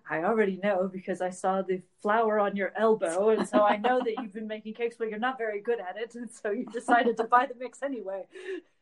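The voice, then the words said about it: Impression of Sherlock Holmes. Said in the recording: “That's my best impression of Sherlock.”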